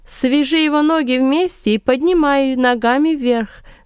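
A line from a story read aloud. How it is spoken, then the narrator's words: Loud commanding. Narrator (Russian): громко указывал Варнава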